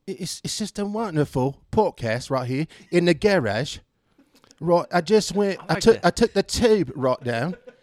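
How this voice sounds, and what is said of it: Put-on British accent. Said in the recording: “I like to do a real good British accent ... I've been told by actual people from the UK that I do a pretty good one”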